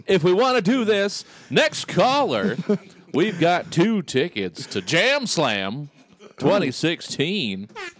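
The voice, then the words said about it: Exaggerated radio DJ voice. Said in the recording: “Radio voices ... radio voice? ... We can certainly do radio voices.”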